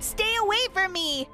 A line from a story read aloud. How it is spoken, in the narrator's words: I screamed at the top of my lungs